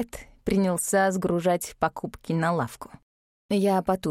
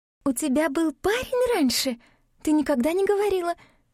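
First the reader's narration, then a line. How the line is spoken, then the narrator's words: Cheerful chirping. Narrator (Russian): Радостно прощебетала Габриэль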